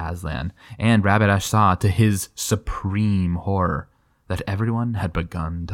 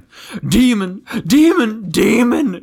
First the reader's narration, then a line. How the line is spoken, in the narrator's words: shrieked the prince